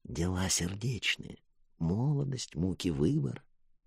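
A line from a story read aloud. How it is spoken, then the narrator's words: Whisper. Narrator (Russian): Велт шепотом произнес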